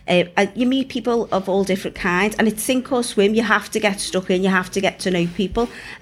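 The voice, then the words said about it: Northwest English regional accent. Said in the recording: “a small town like me from the northwest, as you can tell from the accent.”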